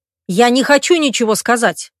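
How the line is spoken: Barked. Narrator (Russian): рявкнул Миша

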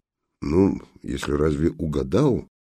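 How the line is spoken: Distrustful mutter. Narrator (Russian): недоверчиво буркнул жандарм

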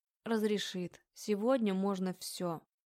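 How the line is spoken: Confident. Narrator (Russian): заявляю уверенным тоном

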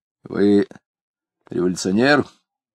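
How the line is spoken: Sudden, unpleasantly loud, male. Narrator (Russian): вдруг и неприятно громко спросил он

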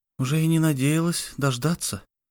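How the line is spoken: Barely audible guilty whisper. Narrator (Russian): прошептала она чуть слышно, виновато улыбнулась

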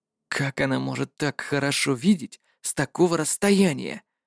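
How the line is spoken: Whisper. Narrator (Russian): прошептал Жюль

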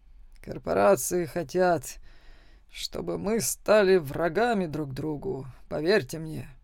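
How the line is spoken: Displeased mutter. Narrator (Russian): недовольно пробормотал профессор Ленокс

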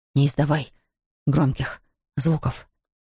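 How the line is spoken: Gasping whisper. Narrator (Russian): прошептал Равендер между судорожными вдохами

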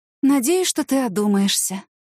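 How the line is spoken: Sighing. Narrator (Russian): вздохнула Ася

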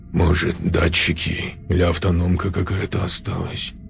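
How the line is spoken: Muttered. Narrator (Russian): Пробормотал он

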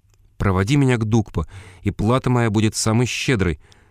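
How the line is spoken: Ardent exclamation. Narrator (Russian): пылко воскликнул я

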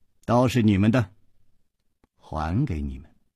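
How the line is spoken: Flat, indifferent tone. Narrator (Chinese): 白衣人淡淡地说

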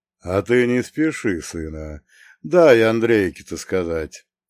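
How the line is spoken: Cheerful chuckle. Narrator (Russian): весело хмыкнул Прохор

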